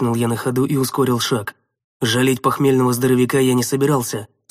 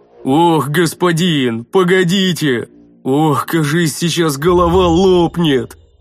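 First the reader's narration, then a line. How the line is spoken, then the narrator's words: Pained moaning. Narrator (Russian): Мученически простонал Рикар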